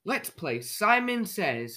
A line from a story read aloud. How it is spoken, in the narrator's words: cried